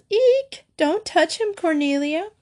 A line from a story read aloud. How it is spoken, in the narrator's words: Mary squealed